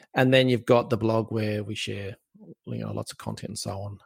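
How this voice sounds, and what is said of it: Australian accent. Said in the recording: “my wonderful Aussie accent”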